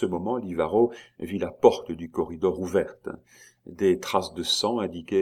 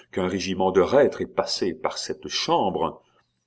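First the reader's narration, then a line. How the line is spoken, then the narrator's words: Exclaimed. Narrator (French): s'écria Livaro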